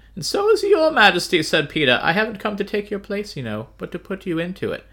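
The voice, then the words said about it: Aristocratic voice for Peter. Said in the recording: “Don't do that voice again. ... That's my aristocratic Peter voice.”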